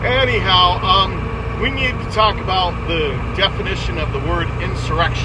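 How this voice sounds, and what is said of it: Radio DJ voice. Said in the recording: “I've got my DJ voice going on.”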